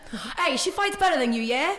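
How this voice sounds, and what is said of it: Poor put-on British accent. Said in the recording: “I'm about to do his accent and I'm terrible at doing British accent.”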